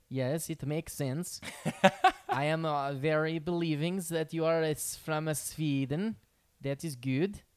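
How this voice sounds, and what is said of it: Put-on Swedish accent. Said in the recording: “the accent. You got the accent.”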